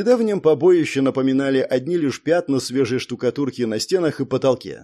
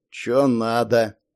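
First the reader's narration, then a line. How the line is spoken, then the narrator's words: Sleepy mumble. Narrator (Russian): сонно пробурчал задержанный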